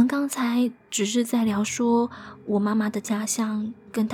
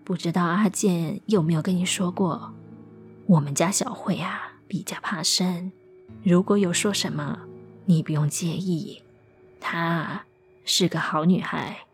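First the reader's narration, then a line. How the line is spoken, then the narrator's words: Low voice, smiling. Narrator (Chinese): 阿健的母亲压低声音笑着说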